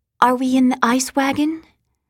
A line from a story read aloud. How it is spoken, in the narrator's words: Sean asked in a small voice